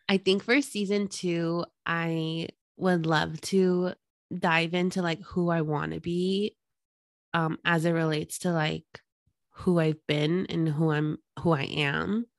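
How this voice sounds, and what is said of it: Husky, sick-sounding voice. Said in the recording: “I'm like a little sick still. So that's why my voice sounds like a sex phone operator.”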